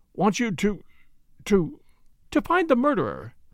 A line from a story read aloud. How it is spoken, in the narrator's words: said in a clear voice